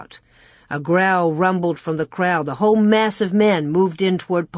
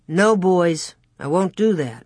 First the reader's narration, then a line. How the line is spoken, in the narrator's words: Pa said coolly